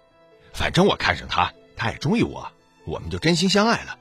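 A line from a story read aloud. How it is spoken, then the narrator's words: Flippant, grinning. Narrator (Chinese): 他却嬉皮笑脸的说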